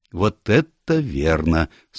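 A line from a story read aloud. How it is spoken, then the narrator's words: Calm agreement. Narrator (Russian): спокойно согласился Станор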